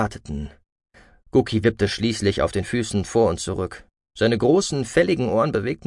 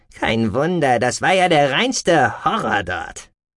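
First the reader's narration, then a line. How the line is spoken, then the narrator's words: Grumbling. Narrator (German): brummte Gookie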